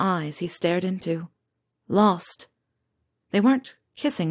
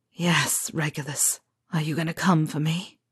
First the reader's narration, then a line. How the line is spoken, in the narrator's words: James murmured